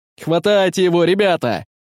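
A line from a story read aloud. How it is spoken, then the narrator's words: Shout. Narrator (Russian): закричал Эдуард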